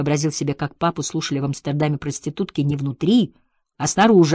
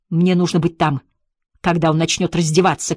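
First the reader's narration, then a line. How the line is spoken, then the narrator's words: Shout. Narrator (Russian): крикнул он Джеку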